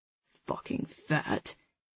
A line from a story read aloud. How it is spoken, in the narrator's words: he mutters